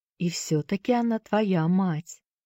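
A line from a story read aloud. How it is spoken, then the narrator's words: Gentle woman's voice. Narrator (Russian): мягко произнесла миссис Шафта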